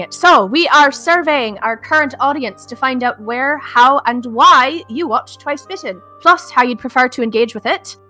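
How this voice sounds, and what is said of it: Character's put-on accent. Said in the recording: “I'm going to be saying this in my Kiva accent because I'm nervous about dropping it.”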